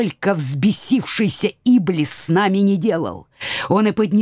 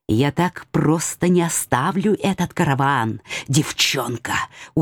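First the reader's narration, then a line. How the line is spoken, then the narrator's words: Distant private whisper. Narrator (Russian): отдаленный шепот, предназначавшийся только моим ушам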